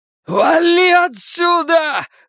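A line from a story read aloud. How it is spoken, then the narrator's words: Yelling. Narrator (Russian): заорал Бадди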